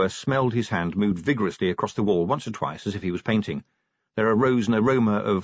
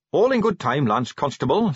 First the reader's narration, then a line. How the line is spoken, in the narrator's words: said Carrot firmly